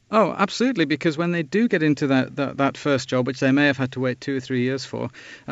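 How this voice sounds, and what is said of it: Strong English accent. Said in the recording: “a strong English accent is preferred for this job. ... I've got one of those.”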